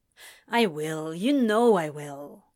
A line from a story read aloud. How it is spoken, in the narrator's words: Crowley grumbled